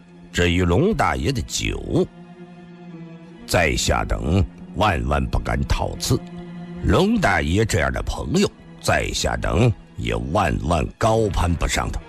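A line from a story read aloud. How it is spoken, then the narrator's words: Cold, stern. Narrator (Chinese): 他又沉着脸冷冷地又接着说道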